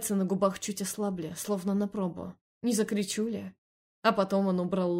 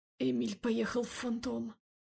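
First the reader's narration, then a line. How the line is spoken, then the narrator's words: Hoarse. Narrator (Russian): хрипло сказала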